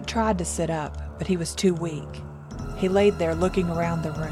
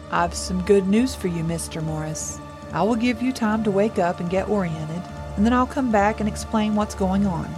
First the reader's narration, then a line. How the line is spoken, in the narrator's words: said